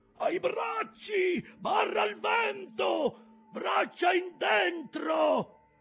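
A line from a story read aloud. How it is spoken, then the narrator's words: Agitated shout. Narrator (Italian): Acab, in preda a viva agitazione, urlò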